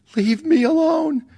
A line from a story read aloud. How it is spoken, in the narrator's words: shrieked